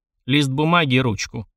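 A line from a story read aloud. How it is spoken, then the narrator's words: Gloomy request. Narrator (Russian): мрачно попросил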